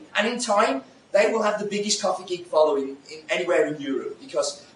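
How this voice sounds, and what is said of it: Accented, fast speech. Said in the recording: “my accent and the speed that I go”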